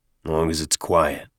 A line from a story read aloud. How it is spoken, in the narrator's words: Avery muttered